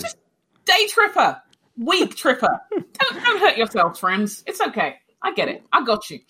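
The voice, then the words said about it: British London accent. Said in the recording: “I love the British accent ... it's an English accent, it's a London accent”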